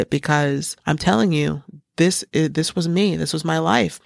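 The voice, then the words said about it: Emotional, tearful voice. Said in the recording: “I'm starting to kind of get emotional, tear up a little bit”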